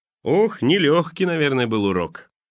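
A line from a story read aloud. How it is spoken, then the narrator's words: Laughing. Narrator (Russian): Богатый папа засмеялся и сказал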